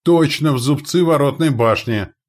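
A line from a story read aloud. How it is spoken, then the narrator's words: Lookout's exclamation. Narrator (Russian): воскликнул наблюдатель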